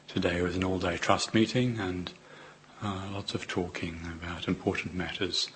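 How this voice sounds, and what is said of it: Weak, strained voice. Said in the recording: “my voice is not very good... my voice wasn't good, and then I got better, and then I got worse.”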